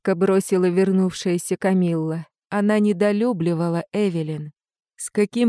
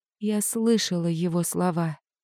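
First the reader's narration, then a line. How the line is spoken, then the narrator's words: Quiet. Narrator (Russian): тихо сказала я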